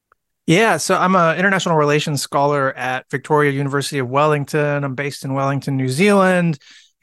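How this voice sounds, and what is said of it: American accent. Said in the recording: “You can tell from my accent, I'm American.”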